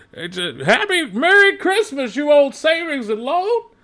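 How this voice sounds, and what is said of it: Old man voice. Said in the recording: “I'm going in kind of an old man voice.”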